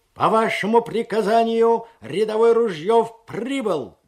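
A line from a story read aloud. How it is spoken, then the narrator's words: Barked shout. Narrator (Russian): гаркнул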